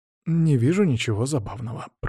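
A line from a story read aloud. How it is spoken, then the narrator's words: Mumbled. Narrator (Russian): пробормотал он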